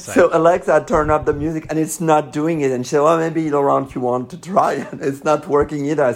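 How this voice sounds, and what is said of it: French accent. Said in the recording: “maybe it's my French accent”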